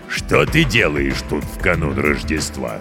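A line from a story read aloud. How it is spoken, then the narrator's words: Stern goblin question. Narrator (Russian): строго спросил гоблин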